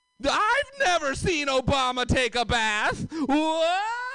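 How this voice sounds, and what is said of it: Comic character voice. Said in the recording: “my impression of, you know, those wacky inflatable arm guys outside Cardi... but he's a crazy conservative”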